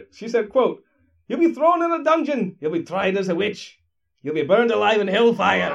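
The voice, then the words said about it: Put-on Scottish accent. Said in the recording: “why didn't you do a Scottish accent”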